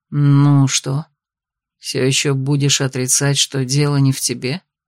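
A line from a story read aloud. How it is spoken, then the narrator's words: Almost purring tone. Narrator (Russian): Каким-то почти мурлыкающим тоном произнес он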